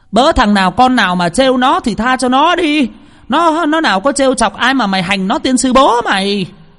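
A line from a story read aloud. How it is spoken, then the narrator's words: Yelling. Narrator (Vietnamese): bà ấy vừa la lên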